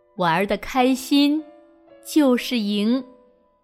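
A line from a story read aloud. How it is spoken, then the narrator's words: Slow, calm self-talk. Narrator (Chinese): 深吸一口气，慢慢的对自己说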